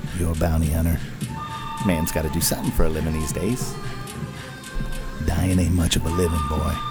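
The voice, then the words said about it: So-so Clint Eastwood impression. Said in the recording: “Clint Eastwood ... kind of as good and bad as my impersonation of ... Clint Eastwood”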